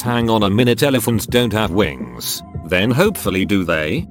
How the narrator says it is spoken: In a deeply suspicious voice

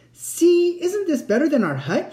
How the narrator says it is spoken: cried

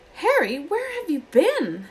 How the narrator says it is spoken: Hermione squeaked

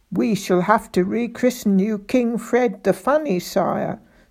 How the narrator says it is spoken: chuckled Spittleworth

